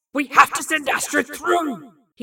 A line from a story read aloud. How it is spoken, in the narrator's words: he'd screamed